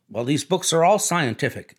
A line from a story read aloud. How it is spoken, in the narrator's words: insisted Tom